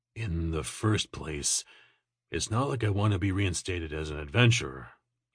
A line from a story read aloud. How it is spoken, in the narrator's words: he muttered